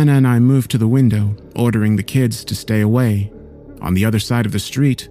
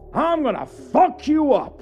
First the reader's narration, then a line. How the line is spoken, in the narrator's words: yelled